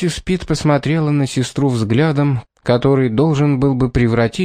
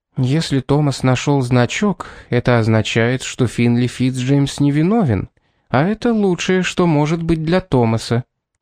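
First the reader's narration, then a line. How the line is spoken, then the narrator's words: Calm reply. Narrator (Russian): уже спокойно ответила она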